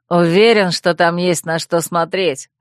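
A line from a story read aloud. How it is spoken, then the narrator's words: Snorting. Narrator (Russian): хмыкнул другой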